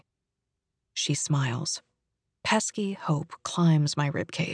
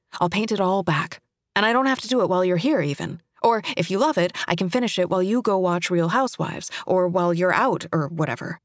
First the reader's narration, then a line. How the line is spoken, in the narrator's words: I say quickly